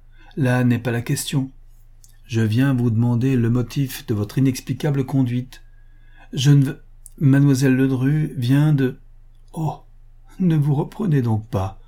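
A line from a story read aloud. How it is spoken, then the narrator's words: Mocking young woman. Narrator (French): dit la jeune femme d'un ton railleur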